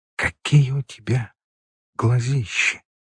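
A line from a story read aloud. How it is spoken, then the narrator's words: Whispered. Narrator (Russian): прошептала Света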